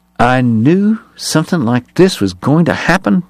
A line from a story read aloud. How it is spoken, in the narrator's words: Bat muttered